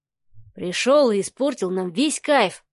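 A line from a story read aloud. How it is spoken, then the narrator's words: Grumbling. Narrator (Russian): заворчал Кирилл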